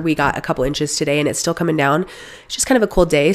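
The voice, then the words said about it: Voice sounds sick. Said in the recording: “as you can kind of hear in my voice, I have been sick again”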